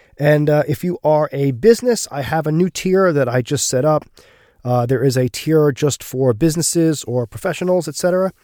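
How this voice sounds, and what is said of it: Gravelly, slightly rough voice. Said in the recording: “I wasn't feeling well this week, so my voice is a little bit extra gravelly”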